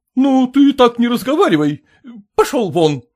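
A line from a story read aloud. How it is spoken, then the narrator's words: Shouted. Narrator (Russian): крикнул Клянчин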